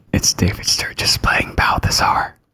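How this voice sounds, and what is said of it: Whispering. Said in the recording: “I guess we're whispering.”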